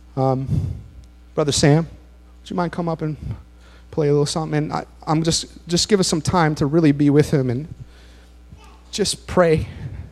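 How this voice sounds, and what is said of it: Hoarse, fading voice. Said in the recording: “I'm losing my voice now”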